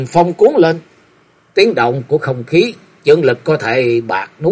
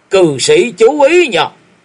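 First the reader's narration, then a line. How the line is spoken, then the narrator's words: Sudden loud roar. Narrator (Vietnamese): Đột nhiên Thiếu Lâm chưởng môn gầm to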